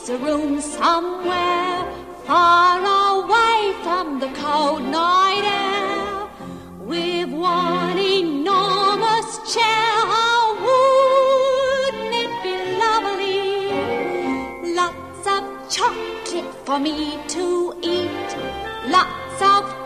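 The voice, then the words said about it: Singing in a Cockney accent. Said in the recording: “with a perfect Cockney accent”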